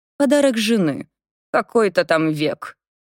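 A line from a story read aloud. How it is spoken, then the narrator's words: Grumbling, snapping. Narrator (Russian): буркнул Навроцкий и огрызнулся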